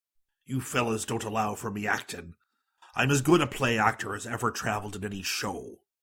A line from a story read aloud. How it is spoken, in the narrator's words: growled